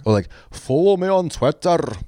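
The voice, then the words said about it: Put-on strong Scottish accent. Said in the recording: “has a super strong Scottish accent”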